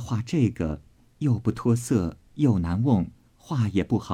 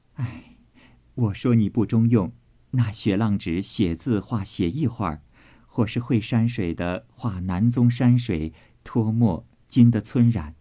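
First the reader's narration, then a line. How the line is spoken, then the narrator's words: Cold sneering. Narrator (Chinese): 宝钗冷笑道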